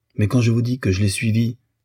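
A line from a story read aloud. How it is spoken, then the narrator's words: Exclaimed. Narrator (French): s'écria la Batenaz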